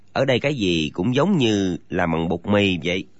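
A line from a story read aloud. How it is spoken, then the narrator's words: Young man's alarmed mutter. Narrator (Vietnamese): Chàng thiếu niên chẳng hiểu ra sao, ngấm ngầm kinh hãi trong lòng, lẩm bẩm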